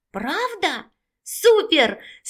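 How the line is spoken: Joyful exclamation. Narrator (Russian): с радостью воскликнул Егорка

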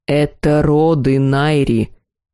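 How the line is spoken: Strained, through teeth. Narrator (Russian): Процедил демон, с трудом удерживая иллюзию человеческого облика

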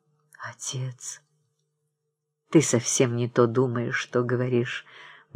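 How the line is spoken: Soft, heartfelt. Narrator (Russian): мягко и задушевно произнес Павел

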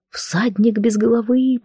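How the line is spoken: Frightened whisper. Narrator (Russian): прошептала я

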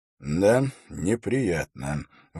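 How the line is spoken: Sigh. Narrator (Russian): вздохнул Холт

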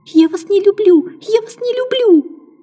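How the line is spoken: Screamed. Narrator (Russian): Я закричала

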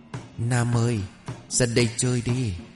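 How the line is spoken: Soft calling. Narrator (Vietnamese): ai đó đang khẽ gọi tên của mình

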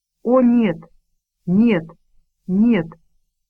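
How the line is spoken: Mumbling. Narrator (Russian): бормотал кто-то

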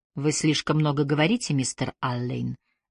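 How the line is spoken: Soft speech. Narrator (Russian): мягко сказала Трой

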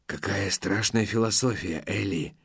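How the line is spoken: Whispered. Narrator (Russian): снова прошептал Лусин

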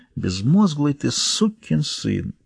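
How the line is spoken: Sighing. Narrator (Russian): вздохнул

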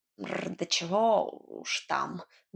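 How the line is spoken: Good-natured grumble. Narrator (Russian): добродушно проворчал кот

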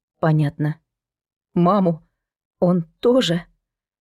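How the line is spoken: Sobbing. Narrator (Russian): Она всхлипнула

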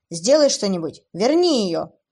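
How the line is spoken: Shouting again. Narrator (Russian): Вновь закричал Уилл

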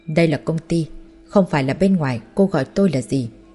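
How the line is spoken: Cold. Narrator (Vietnamese): Bạch Vân Khê vẻ mặt lạnh lùng nói

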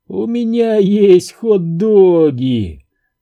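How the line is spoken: Thin whining voice. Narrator (Russian): тонким голосом заныл он

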